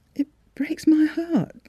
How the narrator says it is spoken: she had sobbed

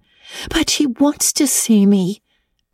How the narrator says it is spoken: pleaded Anne

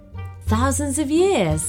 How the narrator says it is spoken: gasped Mia

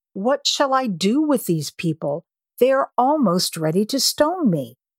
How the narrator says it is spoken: Moses cried to the Lord, saying

